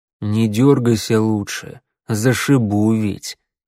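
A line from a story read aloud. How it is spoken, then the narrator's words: Almost tender. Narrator (Russian): прозвучало почти ласково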